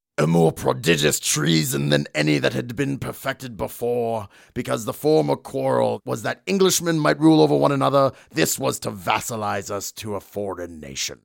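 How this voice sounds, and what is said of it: Imitates another person's voice. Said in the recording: “I'm going to do a Cromwell voice now.”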